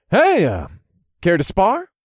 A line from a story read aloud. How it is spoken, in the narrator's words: asked in a friendly tone